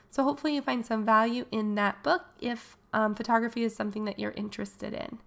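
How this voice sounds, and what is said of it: Funny-sounding voice, getting over cold. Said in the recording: “you can tell my voice sounds a little funny right now. I'm kind of getting over a cold”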